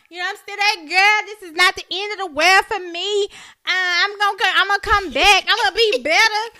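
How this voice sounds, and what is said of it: Imitates another person's voice. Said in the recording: “I did a damn good impression ... you sound just like her”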